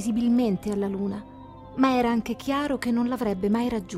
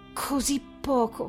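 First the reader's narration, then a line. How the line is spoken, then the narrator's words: Exclaiming. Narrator (Italian): esclamò Nicole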